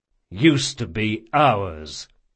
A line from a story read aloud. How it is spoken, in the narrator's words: said Jean coldly